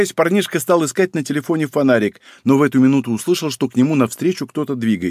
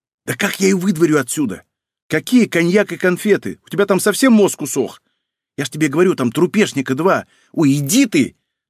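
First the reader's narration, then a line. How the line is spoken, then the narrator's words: Irritated bark. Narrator (Russian): Гаркнул он раздраженно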